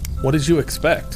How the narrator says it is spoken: asked Carter

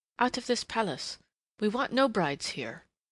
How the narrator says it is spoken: she was saying urgently

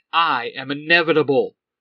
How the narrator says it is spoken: Draken shouts

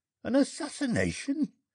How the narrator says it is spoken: gasped the bandit

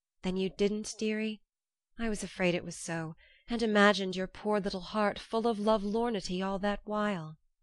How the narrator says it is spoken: added softly

